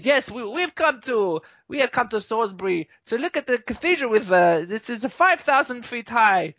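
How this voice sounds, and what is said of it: Bad put-on Russian accent. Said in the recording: “that's a really bad Russian accent ... I was really enjoying your Russian accent”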